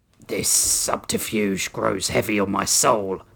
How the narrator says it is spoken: Oryx growled

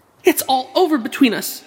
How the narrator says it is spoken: she cried

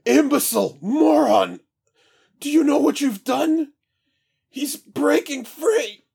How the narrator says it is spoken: Jarl Troon's pained scream

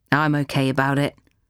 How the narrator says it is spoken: Maisie said

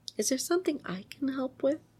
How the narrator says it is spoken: asked him very sweetly

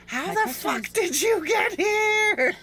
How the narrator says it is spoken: She screamed

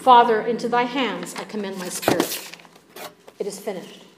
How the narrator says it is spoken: Jesus, breathing his last, quietly announces

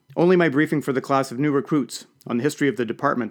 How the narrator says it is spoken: I replied

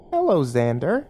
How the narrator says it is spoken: said cheerfully

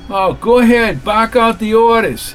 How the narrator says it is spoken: yelled Rothstein

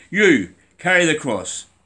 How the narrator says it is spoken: shouted to me

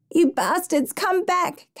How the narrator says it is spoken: Caroline yelled uselessly, then sobbed with dismay

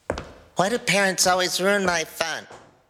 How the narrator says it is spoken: He grumbled, still sulking

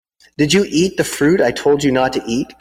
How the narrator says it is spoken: God asked them

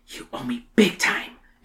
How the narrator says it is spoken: Emily whispers

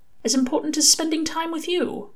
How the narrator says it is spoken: Aziraphale said softly

